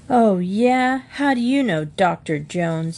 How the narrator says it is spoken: said, leaning out of the upper bunk and forgetting to groan

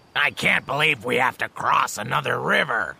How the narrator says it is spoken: muttered Bajie

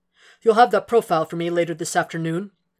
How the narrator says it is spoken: Jack asked him

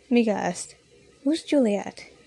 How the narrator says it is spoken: Rox sighed a little

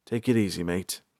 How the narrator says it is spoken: Balthar said quietly

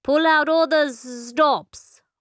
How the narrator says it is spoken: slurred expression

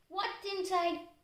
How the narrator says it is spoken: Christy asked her

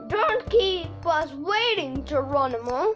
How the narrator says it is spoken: Jack called out

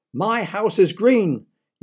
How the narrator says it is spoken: yelled Mr

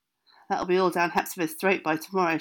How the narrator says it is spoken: she said

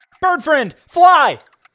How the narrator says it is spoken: the artist yelled

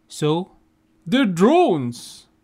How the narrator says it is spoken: shouts, but then calms himself

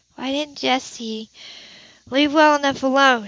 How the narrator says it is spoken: She asked miserably

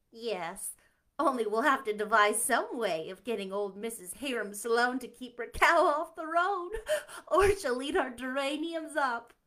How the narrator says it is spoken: laughed Diane

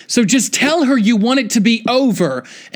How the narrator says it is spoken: I heard Jess yelling

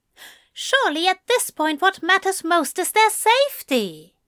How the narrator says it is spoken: he exclaimed

